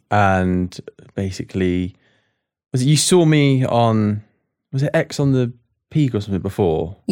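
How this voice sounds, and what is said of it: Pleasant noticeable accent. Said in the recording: “That's such a nice accent to hear in the morning.”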